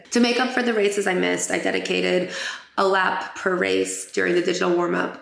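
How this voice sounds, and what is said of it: Raspy, hoarse voice. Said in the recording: “I got sick. And as you can hear, I'm still a little raspy.”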